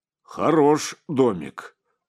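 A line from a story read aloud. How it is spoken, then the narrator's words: Deep booming male voice. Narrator (Russian): прогудел один, высокий, широкий в плечах, чернобородый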